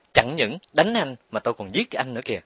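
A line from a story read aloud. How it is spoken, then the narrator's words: Hissed through clenched teeth, hateful. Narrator (Vietnamese): Rít lời qua hai hàm răng nghiến chặt, mắt Tịnh Nghi long lanh tia lửa căm thù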